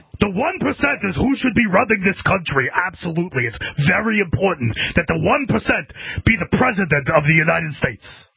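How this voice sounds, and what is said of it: Good Bernie Sanders impression. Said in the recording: “That's actually a pretty good Bernie impression.”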